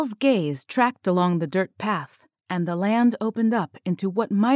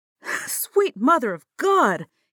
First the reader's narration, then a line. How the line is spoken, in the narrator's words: exclaimed